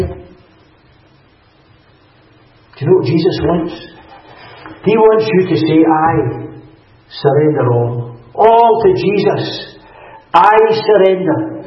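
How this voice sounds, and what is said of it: West of Scotland accent. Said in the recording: “I come from the west of Scotland. I presume you see that, you recognise that from my accent. I don't have a Fife accent.”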